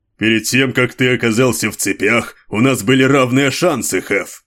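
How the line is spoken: Grumbling. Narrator (Russian): проворчал Ранвиас

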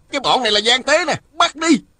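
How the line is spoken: Soldiers shouting together. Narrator (Vietnamese): Mười mấy tên lính hò hét

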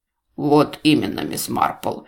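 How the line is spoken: Gloomy. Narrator (Russian): мрачно проговорил Эдвард

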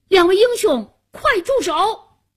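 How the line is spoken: Loud shout. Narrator (Chinese): 夏楠高声喊道

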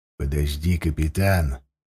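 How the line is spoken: Quiet, old man. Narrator (Russian): тихо проговорил старший рулевой, седой и умудренный жизненным опытом Фроуд Треска

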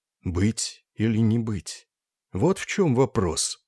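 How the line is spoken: Barely audible, pensive. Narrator (Russian): произнес он едва слышно, весь погруженный в тяжелую задумчивость

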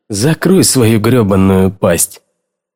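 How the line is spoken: Groaning. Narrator (Russian): Киннон аж застонал

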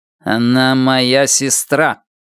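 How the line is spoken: Through clenched teeth. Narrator (Russian): Сквозь стиснутые зубы он процедил

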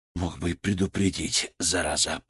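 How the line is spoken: Muttered. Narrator (Russian): Пробормотал я

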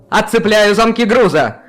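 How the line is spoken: Shout. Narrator (Russian): крикнул Каспиан

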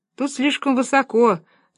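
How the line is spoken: Laughing. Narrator (Russian): засмеялся один из помощников

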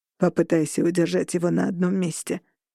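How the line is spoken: Growled. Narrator (Russian): прорычал Шон Волк

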